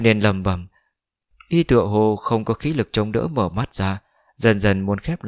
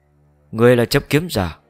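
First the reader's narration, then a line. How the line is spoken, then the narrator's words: Loud. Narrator (Vietnamese): lớn tiếng mở miệng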